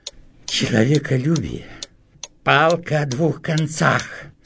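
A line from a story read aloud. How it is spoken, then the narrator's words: Irritated. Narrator (Russian): раздраженно сказал Кириллов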